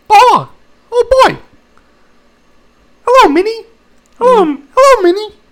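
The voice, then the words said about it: Mickey Mouse cartoon voice. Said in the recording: “No, Mickey.”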